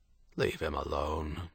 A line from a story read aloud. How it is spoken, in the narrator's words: Murphy said, his voice mild